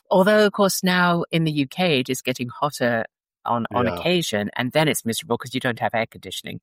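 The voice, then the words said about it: Flattened transatlantic British accent. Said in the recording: “your accent has been flattened. You have that you have that transatlantic accent going on.”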